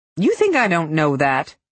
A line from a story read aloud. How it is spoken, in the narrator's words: she snapped